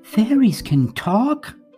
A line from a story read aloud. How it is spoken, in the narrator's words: carelessly blurted